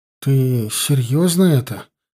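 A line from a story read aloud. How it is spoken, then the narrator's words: Incredulous, forced out. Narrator (Russian): наконец неверяще выдавил из себя Славка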